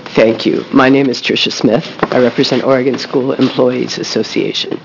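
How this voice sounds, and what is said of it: Unusually deep, temporarily altered voice. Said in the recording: “I apologize for this deep and sexy voice. I hope hopefully it will be gone tomorrow.”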